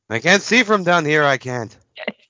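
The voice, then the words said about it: Cartoon character voice, Zoidberg. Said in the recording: “Zoidberg's is funnier... talks in Zoidberg's voice”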